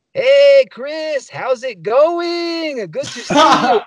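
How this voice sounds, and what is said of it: Exaggerated mock Spanish accent. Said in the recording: “accent. ... that's not Spanish ... speak like Speedy Gonzalez's cousin”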